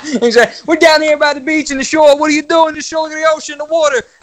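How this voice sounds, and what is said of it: Noticeable regional accent. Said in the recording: “I think that Atlantic City content goes great with your accent, man.”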